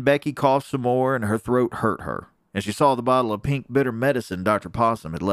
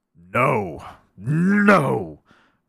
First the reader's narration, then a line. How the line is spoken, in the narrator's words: growled the lion